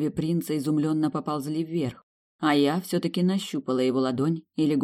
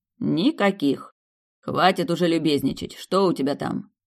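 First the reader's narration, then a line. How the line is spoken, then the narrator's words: Growled. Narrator (Russian): Рыкнул Александр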